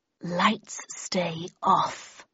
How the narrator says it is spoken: growled a husky woman's voice

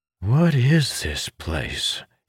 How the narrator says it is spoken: muttered

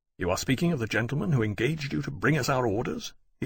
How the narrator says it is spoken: he asked sharply

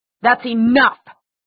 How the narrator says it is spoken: Valentine roared

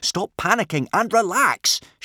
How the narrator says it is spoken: shouted Hiccup sharply

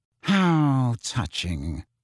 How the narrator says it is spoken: Snape sneered

